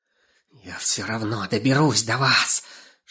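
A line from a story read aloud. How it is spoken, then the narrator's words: Hissing female voice. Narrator (Russian): шипела Жирола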